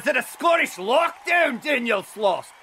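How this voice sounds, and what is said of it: Passable put-on Scottish accent. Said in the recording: “of all the terrible Scottish accents yelled at me in my time, that was up there. It was not as bad as some of the ones I've heard. I could tell what accent you were doing, and that's already better than 90% of Americans.”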